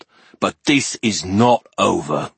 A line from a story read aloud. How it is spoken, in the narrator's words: the ogre growled